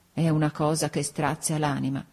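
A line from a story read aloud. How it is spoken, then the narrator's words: Tearful murmur. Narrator (Italian): La cugina, con gli occhi rossi, mormorava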